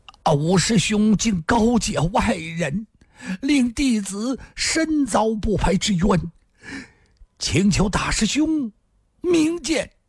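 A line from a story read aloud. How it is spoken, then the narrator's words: Trembling, shaken voice. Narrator (Chinese): 身子一震，突然伏倒在地，颤声地说道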